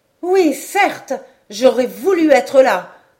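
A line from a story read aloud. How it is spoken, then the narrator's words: Exclaiming. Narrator (French): s'écria Robert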